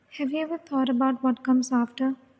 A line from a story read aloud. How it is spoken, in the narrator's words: Aurora asked, her voice barely audible